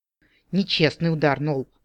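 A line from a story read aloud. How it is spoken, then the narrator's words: Sighing goblin. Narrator (Russian): вздохнул гоблин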